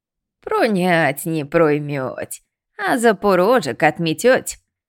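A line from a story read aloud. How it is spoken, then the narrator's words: Weak giggle. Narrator (Russian): слабо хихикнула избушка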